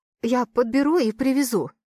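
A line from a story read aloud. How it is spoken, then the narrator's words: Trembling voice. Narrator (Russian): дрожащим голосом произносит Лина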